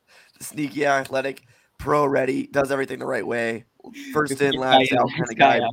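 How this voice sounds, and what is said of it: Strained, worn-out voice. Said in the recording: “My voice is getting destroyed currently.”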